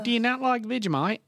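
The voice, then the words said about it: Put-on Australian accent. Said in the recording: “don't do the accent ... It's like Australian ... You're a little softer on the consonants ... You whisper.”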